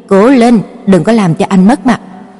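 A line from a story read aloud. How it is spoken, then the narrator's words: Cold. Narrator (Vietnamese): lạnh lùng nói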